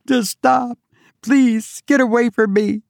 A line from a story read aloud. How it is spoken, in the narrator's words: screamed frantically